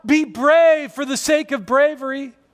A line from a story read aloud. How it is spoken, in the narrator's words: she doesn't shout